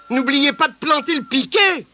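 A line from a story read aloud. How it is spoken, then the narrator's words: Exclaiming. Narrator (French): s'écria Madame Blaireau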